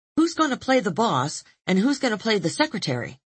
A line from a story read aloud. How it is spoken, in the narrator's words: I'd quickly ask, before they changed their minds